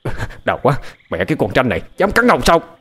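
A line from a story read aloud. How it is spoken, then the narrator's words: Shouting. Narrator (Vietnamese): Hắn hét lên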